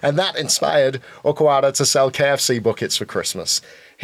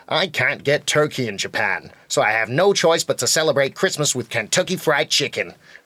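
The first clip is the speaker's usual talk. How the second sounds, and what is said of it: Put-on American accent. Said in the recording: “was that a good American accent? ... That was an amazing American accent”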